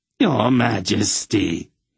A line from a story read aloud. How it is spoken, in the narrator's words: he rasped